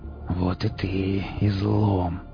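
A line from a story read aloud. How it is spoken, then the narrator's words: Hissed. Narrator (Russian): прошипел сталкер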